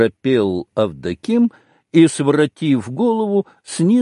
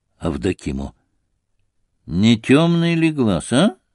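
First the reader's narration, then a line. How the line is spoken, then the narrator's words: Through gritted teeth. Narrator (Russian): Иуда опять сквозь зубы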